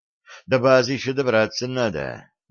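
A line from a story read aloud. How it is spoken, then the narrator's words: Sighing. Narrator (Russian): вздохнул Кошкин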